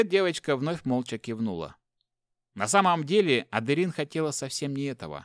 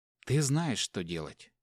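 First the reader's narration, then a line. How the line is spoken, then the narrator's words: Forced calm whisper. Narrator (Russian): стараясь быть как можно спокойнее, прошептала Адерин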